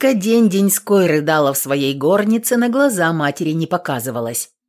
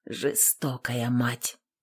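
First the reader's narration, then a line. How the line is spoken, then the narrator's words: Whispered. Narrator (Russian): шептала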